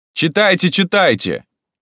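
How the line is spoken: Shout from audience. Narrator (Russian): кто-то крикнул из зала

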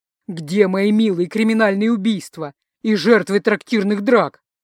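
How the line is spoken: Theatrical wail. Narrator (Russian): Переигрывая, взвыл он

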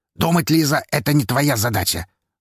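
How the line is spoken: Rude interruption. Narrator (Russian): грубо перебил ее Павел

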